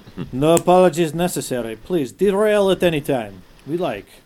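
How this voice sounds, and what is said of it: Put-on accent. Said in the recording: “I don't know where that accent came from”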